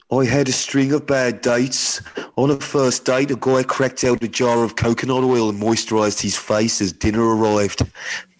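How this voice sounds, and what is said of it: Put-on Birmingham accent. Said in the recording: “you got to do the accent. I think she's from Birmingham ... That's really good ... I'm so sorry to anyone from Birmingham”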